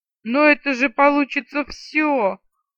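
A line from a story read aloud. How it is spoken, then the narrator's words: Indignant yell. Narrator (Russian): возмущенно завопил он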